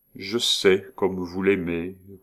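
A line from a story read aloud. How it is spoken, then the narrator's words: Slow, deliberate. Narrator (French): prononça lentement monsieur Lenoir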